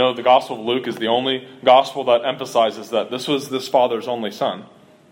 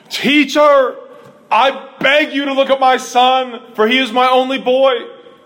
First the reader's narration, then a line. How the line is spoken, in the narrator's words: the man turns the volume all the way up and cries out and shouts with great volume